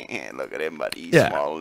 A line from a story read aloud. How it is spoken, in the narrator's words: they were like laughing at him, going